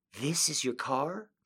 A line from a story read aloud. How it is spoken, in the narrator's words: she gasped